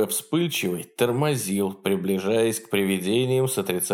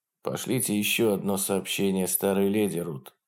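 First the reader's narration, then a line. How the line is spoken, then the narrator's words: Very quiet. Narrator (Russian): очень тихо произнес он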